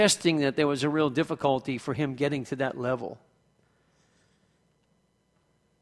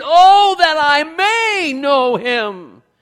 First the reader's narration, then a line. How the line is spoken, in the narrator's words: exclaimed from deep within his spirit